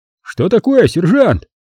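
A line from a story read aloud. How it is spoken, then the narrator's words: Shouting. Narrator (Russian): крикнул кто-то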